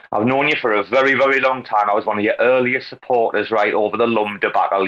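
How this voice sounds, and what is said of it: Speaks with a noticeable accent. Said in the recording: “You have an accent.”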